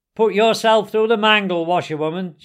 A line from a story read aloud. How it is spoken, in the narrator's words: called out